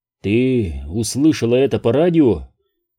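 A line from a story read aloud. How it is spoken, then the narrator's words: Muffled mutter. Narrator (Russian): глухо пробормотал я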